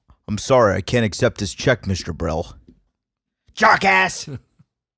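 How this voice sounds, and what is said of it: Imitates another person's voice. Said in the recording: “that impersonation ... I thought it was masterful.”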